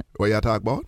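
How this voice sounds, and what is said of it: Caribbean accent. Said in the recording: “What's your Caribbean accent?”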